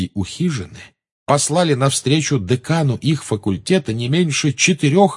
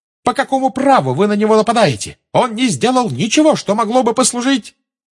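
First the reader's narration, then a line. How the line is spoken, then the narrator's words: Shrieking in unison. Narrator (Russian): Гермиона, Парвати и Лаванда дружно завизжали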